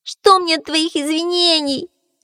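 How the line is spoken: Moaning. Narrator (Russian): застонал заяц

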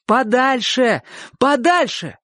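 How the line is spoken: Shout. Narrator (Russian): крикнул Чик

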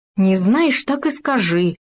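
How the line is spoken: Irritated remark. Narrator (Russian): раздраженно заметил суслик

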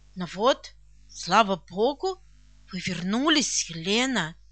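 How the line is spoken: Soft, excited speech. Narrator (Russian): мягко улыбаясь, произнесла взволнованно

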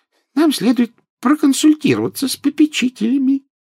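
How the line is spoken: Squeaky. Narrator (Russian): пропищал профессор Флитвик

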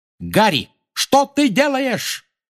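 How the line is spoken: Shouting while flying past. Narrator (Russian): крикнула Анжелина, пролетая мимо

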